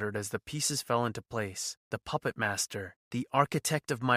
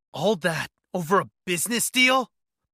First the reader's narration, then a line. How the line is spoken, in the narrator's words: snapped, bitterness seeping into my tone